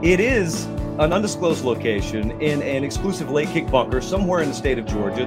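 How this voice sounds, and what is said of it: Hoarse, strained voice. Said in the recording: “my voice is shot ... I've probably got like 15 minutes of voice”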